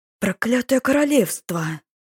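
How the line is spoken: Hissed, male. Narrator (Russian): Зашипел лорд

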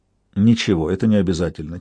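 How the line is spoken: Quiet. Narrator (Russian): тихо сказал я

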